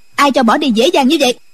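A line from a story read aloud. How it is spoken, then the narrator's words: Woman shouting sharply. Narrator (Vietnamese): Quan y mỹ nữ quát lên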